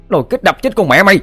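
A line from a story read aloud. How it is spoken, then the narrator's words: Shouted. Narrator (Vietnamese): Nó hét lên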